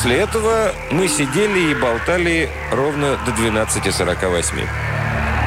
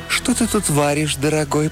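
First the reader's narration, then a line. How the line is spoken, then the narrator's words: Cooing. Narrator (Russian): проворковала она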